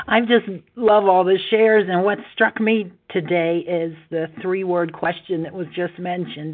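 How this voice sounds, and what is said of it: Hoarse, laryngitis-affected voice. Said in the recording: “Sorry, I got a little laryngitis.”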